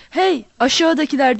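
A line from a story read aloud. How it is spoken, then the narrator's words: Roared. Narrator (Turkish): diye kükredi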